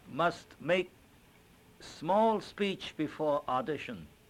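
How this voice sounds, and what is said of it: Put-on Chinese accent, broken English. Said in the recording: “English with a little pigeon. With a little accent, not pidgin necessarily, but with a little Oriental Chinese accent.”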